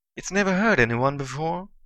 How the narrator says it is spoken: Leland said in a tense voice

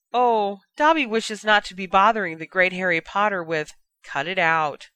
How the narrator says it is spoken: Dobby sighed

